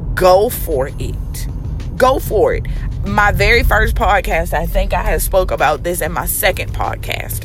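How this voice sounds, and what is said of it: Extra raspy, deep voice. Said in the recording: “my voice is just going to sound like, period. I'm just convinced that it's just going to stay this extra raspy, deep voice.”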